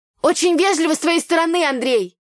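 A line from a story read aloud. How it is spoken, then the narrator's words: Shouted. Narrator (Russian): выкрикнула я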